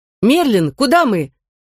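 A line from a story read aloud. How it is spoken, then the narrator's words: Shouted. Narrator (Russian): крикнула Вивиан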